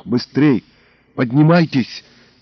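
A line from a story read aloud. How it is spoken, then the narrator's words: Hissed from above. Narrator (Russian): зашипел сверху монтер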